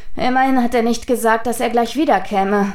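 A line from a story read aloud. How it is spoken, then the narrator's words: Sighing. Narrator (German): seufzte Hotake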